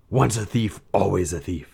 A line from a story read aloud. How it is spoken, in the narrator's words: he snarled